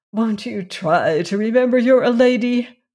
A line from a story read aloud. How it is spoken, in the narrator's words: she pleaded